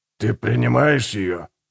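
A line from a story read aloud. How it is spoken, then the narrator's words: Rasping voice. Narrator (Russian): прохрипел Гегель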